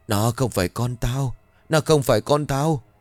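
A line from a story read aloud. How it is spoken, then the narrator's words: Frightened repeated mumbling. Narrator (Vietnamese): Nghĩa đang ngồi co ro ở một góc, cả người run rẩy miệng liên tục lẩm bẩm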